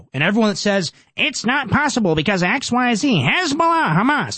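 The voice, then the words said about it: Mark Levin impression. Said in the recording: “my Mark Levin impression”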